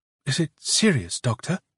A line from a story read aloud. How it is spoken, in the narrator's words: Yelena asked anxiously